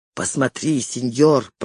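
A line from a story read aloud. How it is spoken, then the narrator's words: Whisper. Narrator (Russian): прошептал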